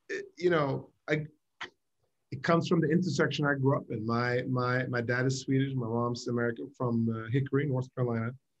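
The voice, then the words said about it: Mixed Swedish American English accent. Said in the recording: “you're Swedish American... very, very different Swedish English accents... Your accent, because it is this kind of crazy international mix”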